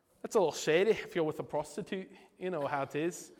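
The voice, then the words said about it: Put-on Scottish accent. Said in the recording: “i get my Scottish accent for that”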